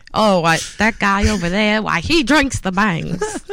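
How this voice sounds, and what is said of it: Imitates an old man's voice. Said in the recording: “You sounded like an old guy. Like, like ... I sounded like an old man there for a second.”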